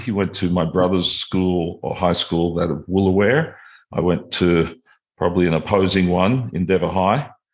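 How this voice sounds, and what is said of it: Australian accent. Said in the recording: “got a similar accent to myself. We're both Aussies”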